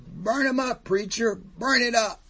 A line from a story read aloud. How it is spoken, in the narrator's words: The congregation yelled